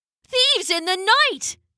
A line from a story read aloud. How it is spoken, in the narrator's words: they cried